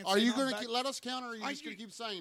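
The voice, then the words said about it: Yelling, raised angry voice. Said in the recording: “you're yelling at me ... You're yelling at me. Nobody else is.”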